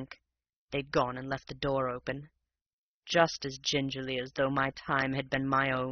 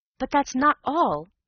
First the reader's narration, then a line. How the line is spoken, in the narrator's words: I cried